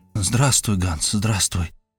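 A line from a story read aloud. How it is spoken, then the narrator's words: Whispered. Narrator (Russian): прошептал я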